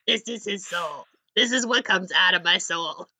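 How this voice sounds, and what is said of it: Put-on New Jersey character voice. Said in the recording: “It's like this accent... It's like nothing... I think this is a New Jersey accent... It's an Alphonse accent”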